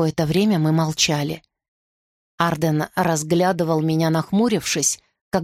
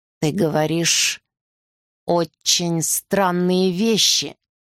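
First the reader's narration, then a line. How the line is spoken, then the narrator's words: Slow. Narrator (Russian): медленно сказал Арден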